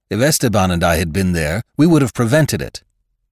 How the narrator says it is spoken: Manuel had cried out loudly

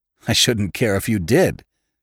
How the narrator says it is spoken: laughed

